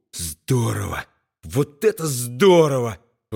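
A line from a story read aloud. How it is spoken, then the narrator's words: Admiring breathless exclamation. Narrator (Russian): восхищенно выдохнул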